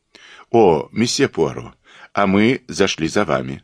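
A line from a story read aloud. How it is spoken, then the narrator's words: Plain. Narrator (Russian): сказал следователь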